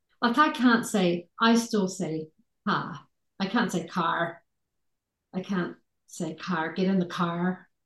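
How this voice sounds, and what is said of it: Mild New Zealand accent. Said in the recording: “my New Zealand accent is not as strong as it used to be”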